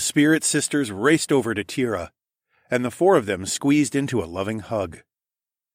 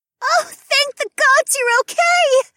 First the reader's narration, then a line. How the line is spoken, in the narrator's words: Juniper squealed